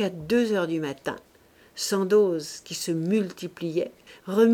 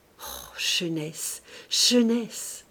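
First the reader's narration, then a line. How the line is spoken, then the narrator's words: Tender teary murmur. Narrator (French): il murmura, les yeux mouillés d'attendrissement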